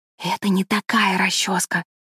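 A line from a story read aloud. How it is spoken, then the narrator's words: Whisper. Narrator (Russian): прошептала кузина Тереза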